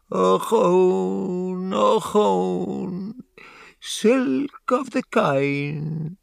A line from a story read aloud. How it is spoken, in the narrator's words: she wails